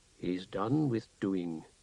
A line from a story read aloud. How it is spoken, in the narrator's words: the doorkeeper murmured, smiling